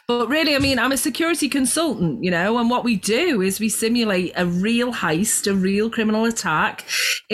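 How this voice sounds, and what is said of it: Scouse accent. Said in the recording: “I've got this Scouse accent”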